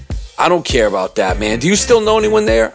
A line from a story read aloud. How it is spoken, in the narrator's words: I asked